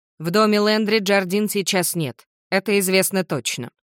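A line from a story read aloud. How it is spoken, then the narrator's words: Plain. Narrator (Russian): говорит помощник шерифа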